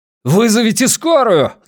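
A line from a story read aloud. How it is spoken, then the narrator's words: Yell. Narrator (Russian): заорал волк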